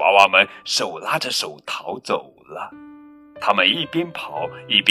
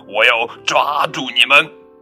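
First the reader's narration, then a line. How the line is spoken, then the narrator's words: Loud monstrous roar. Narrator (Chinese): 张牙舞爪的大恐龙，它朝纸娃娃们大声咆哮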